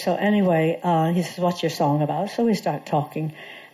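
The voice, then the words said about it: English accent. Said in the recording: “You have a funny accent. Because I developed an English accent over my 30 years with you.”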